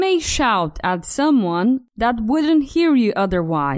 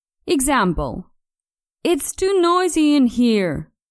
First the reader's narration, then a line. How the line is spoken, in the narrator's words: she shouted